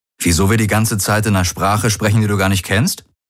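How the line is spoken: Plain. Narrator (German): fragte Garland

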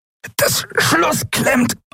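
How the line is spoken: Strained, pressed voice. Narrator (German): antwortete Quailor mit gepresster Stimme

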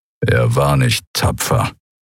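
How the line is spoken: Contemptuous growl. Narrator (German): Kehrufer ächtlich knurren

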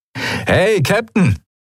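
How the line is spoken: Called out. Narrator (German): rief Sephiron der Skria zu

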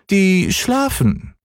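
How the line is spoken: Little cat calling down. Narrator (German): rief die kleine Katze herunter

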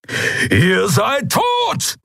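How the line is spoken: Thundering shout. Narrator (German): donnerte Keru

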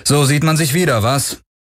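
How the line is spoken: Cool call, without warmth. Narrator (German): rief Garlin ohne große Herzlichkeit

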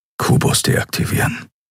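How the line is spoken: Whispering. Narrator (German): flüsterte er

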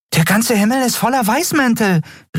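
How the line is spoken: Exclamation. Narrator (German): rief Nelen aus

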